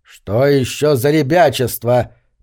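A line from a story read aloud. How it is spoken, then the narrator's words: Grumbling. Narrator (Russian): проворчал пастор Мэддокс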